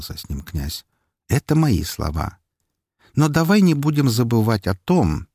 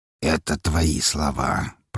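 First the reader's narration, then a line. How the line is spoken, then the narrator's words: Through gritted teeth. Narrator (Russian): процедил Распутин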